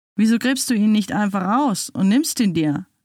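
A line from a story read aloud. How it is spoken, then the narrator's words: Laughing. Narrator (German): lachte sie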